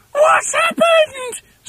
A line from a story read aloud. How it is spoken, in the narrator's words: screamed Mrs